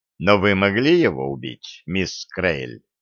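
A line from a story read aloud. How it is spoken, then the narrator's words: Calm. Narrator (Russian): сказал спокойно Далмас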